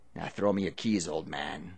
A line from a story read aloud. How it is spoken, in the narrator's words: Ray growled